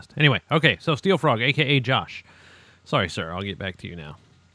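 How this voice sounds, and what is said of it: Talking very fast, hurried. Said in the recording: “You in a terrible hurry tonight, sir? ... That's why I'm talking so fast.”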